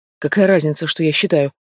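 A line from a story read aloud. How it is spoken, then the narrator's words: Muttering. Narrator (Russian): Пробормотала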